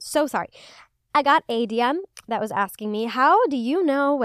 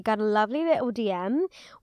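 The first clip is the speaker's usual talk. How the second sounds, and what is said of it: Put-on British accent. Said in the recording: “Why do I keep starting these segments in a British accent?”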